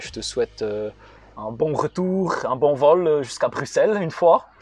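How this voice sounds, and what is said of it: Put-on Belgian French accent. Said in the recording (French): “mon meilleur accent belge”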